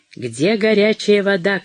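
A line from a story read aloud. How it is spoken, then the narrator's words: Shouting. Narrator (Russian): кричал Броуди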